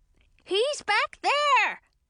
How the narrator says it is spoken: shouted a witch at the end of the line

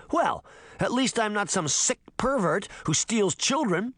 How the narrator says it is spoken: Sabrina shouted

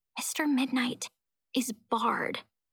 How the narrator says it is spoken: I draw a deep breath, then whisper

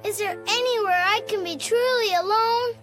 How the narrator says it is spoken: he said with a moan

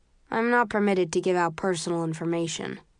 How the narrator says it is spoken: he replies blandly

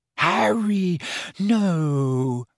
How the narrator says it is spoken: moaned Hermione

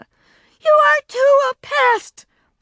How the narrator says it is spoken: Beezus yelled back

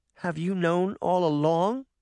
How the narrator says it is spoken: Sabrina said, her voice trembling with anger and hurt

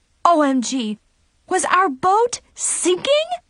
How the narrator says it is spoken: Brianna shrieked hysterically

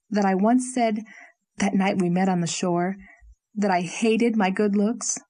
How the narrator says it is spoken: said Leslie slowly

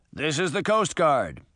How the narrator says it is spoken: a booming voice called out

